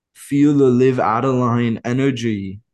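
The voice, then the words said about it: Put-on accent. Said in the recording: “Focus on this accent, bruv, mate. ... I feel like this accent's pretty good.”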